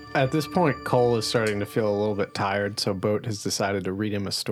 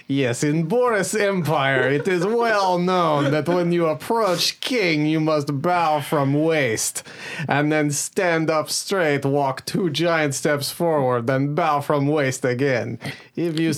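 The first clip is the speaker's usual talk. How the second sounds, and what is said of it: Reads aloud in a put-on foreign accent. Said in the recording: “But I'm reading it in an accent.”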